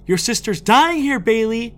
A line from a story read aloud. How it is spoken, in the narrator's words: shouted out